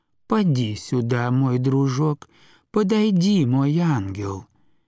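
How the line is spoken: Touching, tender voice. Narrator (Russian): заговорила трогательным, нежным голосом

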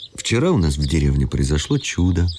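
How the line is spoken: Plain. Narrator (Russian): сказала она

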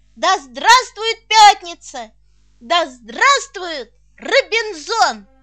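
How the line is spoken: Brightened, shouting. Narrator (Russian): просветлевший Толя кричал

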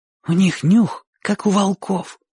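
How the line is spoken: Whispered. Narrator (Russian): сказал Оник шепотом

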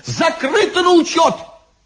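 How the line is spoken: Sudden shout. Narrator (Russian): вдруг вскочил и крикнул

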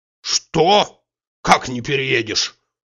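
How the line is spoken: Menacing objection. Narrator (Russian): грозно возразил Тарантьев

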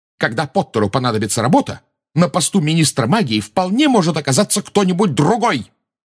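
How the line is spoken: Shouted out. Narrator (Russian): выкрикнула МакГонагалл

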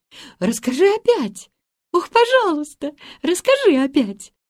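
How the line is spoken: Excited exclamation. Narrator (Russian): воскликнула Гретель

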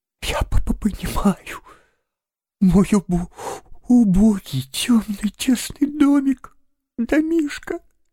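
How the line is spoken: Forced out through sobs. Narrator (Russian): Наконец выдавил он из себя сквозь рыдание

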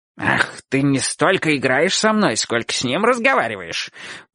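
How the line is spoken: Puppy growling. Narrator (Russian): прорычал щенок

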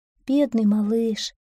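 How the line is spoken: Gentle comforting tone. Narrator (Russian): ласково утешала его серая лягушка

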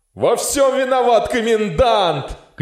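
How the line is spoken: Frenzied shouting. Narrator (Russian): кричал офицер в неистовстве

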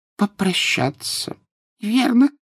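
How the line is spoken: Squeaky voice. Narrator (Russian): пропищал профессор Флитвик

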